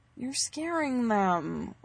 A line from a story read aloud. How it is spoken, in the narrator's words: whines Harry in a very similar tone